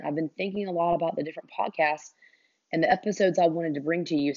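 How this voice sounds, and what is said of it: Hoarse, congested voice. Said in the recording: “I apologize again for my voice. It is definitely 100% allergies. I had lost my voice for the past couple of days just because of all the head congestion ... bear with my voice”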